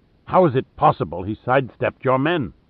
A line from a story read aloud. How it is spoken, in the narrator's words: Lohan said irritably